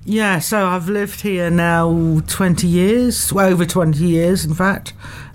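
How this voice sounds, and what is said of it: English accent, possibly slight Kiwi tinge. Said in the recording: “I'm from England, as you can probably tell by my accent. Although when I was in England recently on holiday, somebody said that I sounded like a Kiwi”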